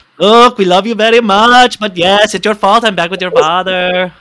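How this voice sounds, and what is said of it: Sofia Vergara accent impression. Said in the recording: “in Sofia Vergara's accent ... That's actually pretty good.”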